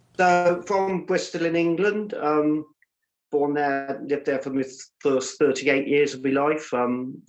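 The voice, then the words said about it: Slight English accent. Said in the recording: “you've got a bit of an accent”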